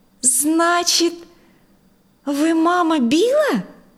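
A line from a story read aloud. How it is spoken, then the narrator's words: Exclamation. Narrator (Russian): воскликнула Дженнифер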